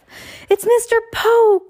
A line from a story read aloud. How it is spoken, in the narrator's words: Klaus cried